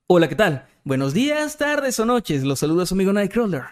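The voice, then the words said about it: Announcer voice, no voice crack. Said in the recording (Spanish): “con voz de locutor ... Sin gallo.”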